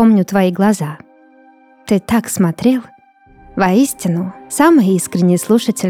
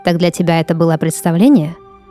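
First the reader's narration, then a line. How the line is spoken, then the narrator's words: Plain. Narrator (Russian): спросил Илай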